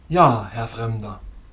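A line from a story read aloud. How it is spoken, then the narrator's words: Deep musical voice. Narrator (German): sagte er mit tiefer musikalischer Stimme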